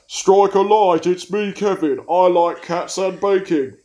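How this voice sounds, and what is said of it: Vaguely cockney put-on accent. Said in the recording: “a vaguely cockney accent”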